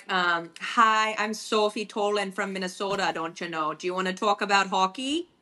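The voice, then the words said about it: Exaggerated Minnesota accent, Canadian-sounding. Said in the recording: “What is a Minnesota accent? Show me. Let me hear. ... Oh my God. It's like Canadian.”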